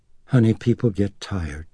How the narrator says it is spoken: she told Reagan tenderly

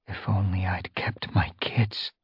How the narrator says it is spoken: she whispered

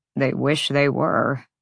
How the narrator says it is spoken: Rune muttered

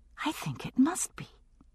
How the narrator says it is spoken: I answered, just as softly

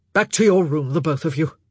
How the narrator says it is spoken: Philip said sharply

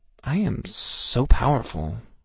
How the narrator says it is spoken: I whispered

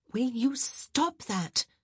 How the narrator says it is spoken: Kate hissed

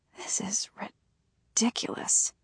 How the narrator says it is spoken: whisper to myself

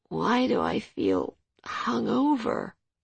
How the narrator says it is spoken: she mumbled

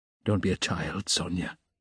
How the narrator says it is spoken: he said softly

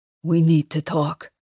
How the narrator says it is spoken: he says in a grave voice

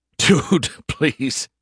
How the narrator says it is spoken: he snorted

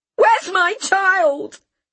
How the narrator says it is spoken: Dawn shouted again, unable to ask anything else

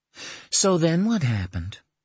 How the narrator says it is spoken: Dana asked, her voice rife with understanding

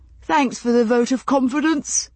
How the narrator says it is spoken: Brianna said, yawning

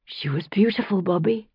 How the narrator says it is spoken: I whispered, my throat still thick after all the tears already shed

